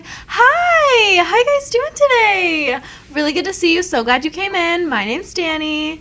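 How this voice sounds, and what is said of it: Overly excited customer service voice. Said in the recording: “Customer service voice ... It's almost like a telephone voice, but worse ... seem way too excited to see my tables”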